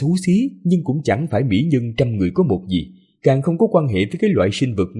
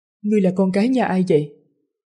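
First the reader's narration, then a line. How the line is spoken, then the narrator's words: Smiling question. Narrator (Vietnamese): Giản Đại Gia mỉm cười hỏi lại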